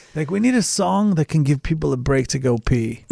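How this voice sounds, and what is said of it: Put-on English accent. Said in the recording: “That's my accent. I can't do English accents. ... That was a good one.”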